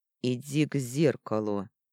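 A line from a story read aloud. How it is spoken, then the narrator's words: Steely command. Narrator (Russian): стальным тоном приказывает он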